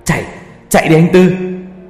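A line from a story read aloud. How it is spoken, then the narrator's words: Desperate all-out shout. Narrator (Vietnamese): ba tôi vùng hết sức bình sinh hét lên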